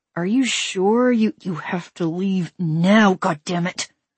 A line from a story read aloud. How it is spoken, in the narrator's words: I said through gritted teeth